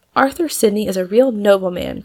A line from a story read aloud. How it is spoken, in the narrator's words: cried Polly, with her face glowing and her eyes full of delight